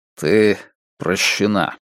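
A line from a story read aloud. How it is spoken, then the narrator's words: Forced smile. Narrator (Russian): сказал Страйк, выдавив улыбку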